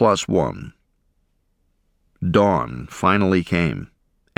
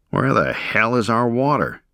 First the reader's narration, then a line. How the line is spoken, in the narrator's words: growled men